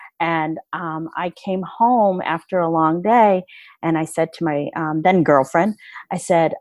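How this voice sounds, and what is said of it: Usual voice. Nothing is said of it.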